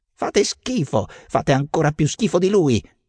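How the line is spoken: Apprentice shouting. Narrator (Italian): grida l'apprendista

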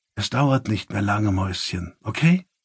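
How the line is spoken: Leaning down, whispering. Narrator (German): beugte sich hinunter und flüsterte

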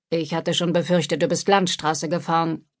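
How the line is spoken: Grumbling. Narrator (German): brummte Phil

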